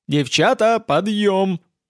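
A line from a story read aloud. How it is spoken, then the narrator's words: Joyful yell. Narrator (Russian): радостно заорал я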